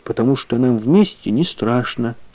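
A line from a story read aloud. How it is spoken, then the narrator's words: Plain. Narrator (Russian): сказала Таня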